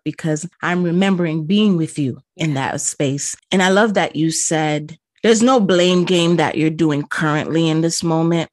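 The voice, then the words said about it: Choked-up, emotional voice. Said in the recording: “my voice is kind of getting choked up”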